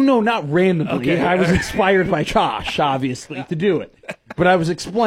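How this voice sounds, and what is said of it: Usual voice. Nothing is said of it.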